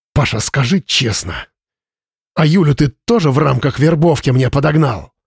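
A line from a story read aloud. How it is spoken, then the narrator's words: Hiss. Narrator (Russian): прошипел Слава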